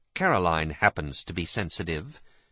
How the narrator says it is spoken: said Michael in a clipped voice

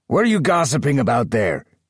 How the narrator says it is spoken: Arnold shouted

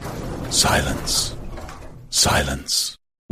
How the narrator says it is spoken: whispered a loudspeaker

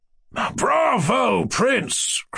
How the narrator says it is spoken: cried

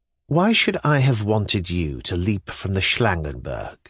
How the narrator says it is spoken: she said dryly, and, I think, with wilful offensiveness

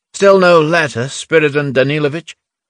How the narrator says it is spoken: Nerzhin called out

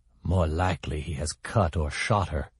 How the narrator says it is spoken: she said in a cold, quiet, bitter voice

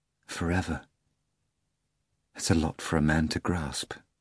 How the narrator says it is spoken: whispered the master

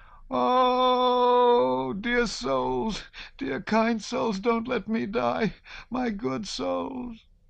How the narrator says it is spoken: The loudest sound in that crowd was her wailing

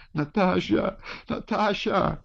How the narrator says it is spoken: cried the Countess

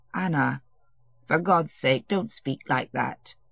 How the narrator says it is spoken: he said gently

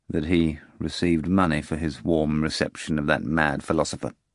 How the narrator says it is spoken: continued the procurator, lowering his voice

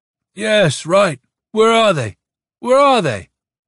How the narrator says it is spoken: asked Mishlaevsky, slurring his words

